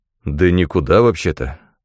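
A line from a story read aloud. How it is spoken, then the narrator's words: Plain. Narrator (Russian): ответил Пирсон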